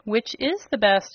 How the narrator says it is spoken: asked Button Bright

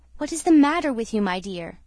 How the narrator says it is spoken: said crossly to the maid, who kept her waiting some minutes

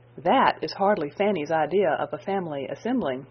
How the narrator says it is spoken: said Edmund

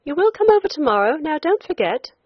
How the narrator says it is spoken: the young woman on the boat called out

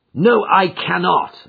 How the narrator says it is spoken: I answered sharply

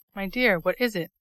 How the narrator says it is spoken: asked Mrs

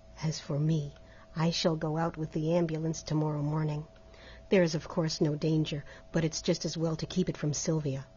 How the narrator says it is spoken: dropping his voice and speaking in English

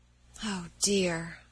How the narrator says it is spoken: sighed Meg

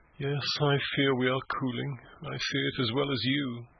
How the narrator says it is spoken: she sighed mournfully

